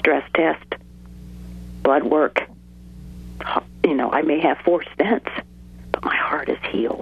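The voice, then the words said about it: Strained, fading voice. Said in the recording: “Excuse me, I'm losing my voice.”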